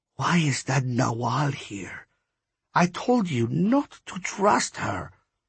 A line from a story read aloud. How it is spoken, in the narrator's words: Cab lowered her voice, as if anyone could understand her, and said